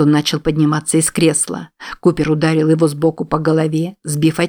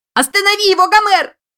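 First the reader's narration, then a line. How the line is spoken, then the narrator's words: Shrill squeal. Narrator (Russian): завизжала Эштон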